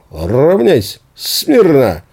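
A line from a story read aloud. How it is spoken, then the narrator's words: Excited, joyful shouting. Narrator (Russian): я временами возбужденно-радостно покрикивал дружинникам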